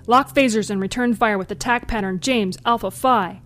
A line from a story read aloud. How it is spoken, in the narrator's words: shouted Lieutenant Commander James